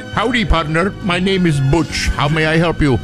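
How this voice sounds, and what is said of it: Thick accent faking American voice. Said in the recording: “the ones that have like a really thick accent, but then they try to sound like American”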